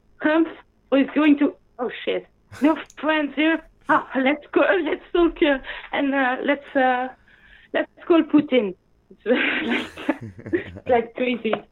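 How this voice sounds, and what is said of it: Non-native English accent. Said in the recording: “sorry for my accent, you know, my English isn't perfect”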